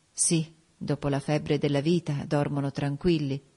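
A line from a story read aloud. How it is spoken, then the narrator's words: Murmured. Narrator (Italian): mormorai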